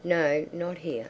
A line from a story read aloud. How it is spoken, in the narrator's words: said the girl